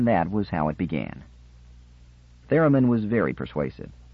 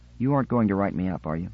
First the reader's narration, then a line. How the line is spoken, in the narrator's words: asked nervously